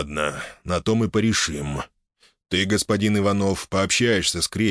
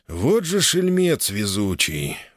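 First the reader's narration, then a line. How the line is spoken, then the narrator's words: Sigh. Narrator (Russian): вздохнул Роман III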